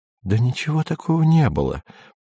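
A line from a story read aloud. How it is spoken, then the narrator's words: Whispering. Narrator (Russian): продолжала шептать Сельма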